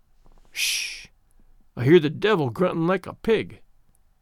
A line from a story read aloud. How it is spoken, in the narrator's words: muttered Granny, looking very impish